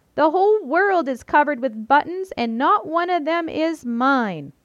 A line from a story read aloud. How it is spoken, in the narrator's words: He jumped up and down and screamed